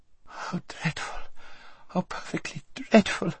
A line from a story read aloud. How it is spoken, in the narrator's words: whimpered Lazareline